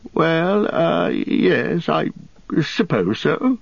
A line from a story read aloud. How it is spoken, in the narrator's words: stammered Bilbo